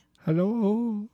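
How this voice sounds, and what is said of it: Imitates another person's singing voice. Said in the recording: “That's my Lionel Richie impression... It was indistinguishable from the original recording.”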